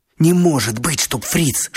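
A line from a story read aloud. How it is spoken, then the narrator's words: Whispered. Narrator (Russian): шепнул Лёшка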